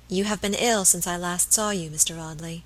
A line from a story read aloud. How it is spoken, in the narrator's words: she said in a low voice that had the same melodious sadness as the notes of the old organ